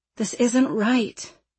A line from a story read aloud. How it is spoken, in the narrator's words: Ayala mumbled